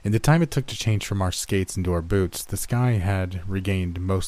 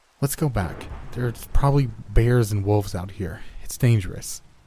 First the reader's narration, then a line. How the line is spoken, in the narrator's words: she said in a trembling voice